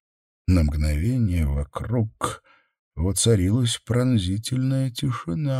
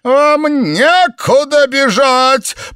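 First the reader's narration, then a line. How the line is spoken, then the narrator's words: Shriek. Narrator (Russian): провизжал Ребекка им вслед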